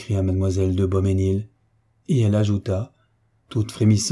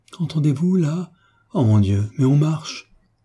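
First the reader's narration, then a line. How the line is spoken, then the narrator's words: Anguished cry. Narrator (French): Mademoiselle de Beauménil s'écria bientôt avec une nouvelle angoisse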